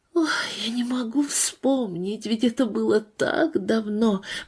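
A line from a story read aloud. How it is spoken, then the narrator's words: Whisper. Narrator (Russian): прошептала она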